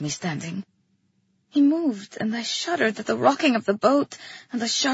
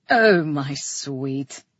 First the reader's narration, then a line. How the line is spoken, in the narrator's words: chuckled